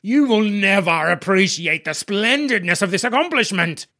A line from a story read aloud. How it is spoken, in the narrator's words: Spittle spat at me with every word